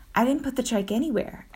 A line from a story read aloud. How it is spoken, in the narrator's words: said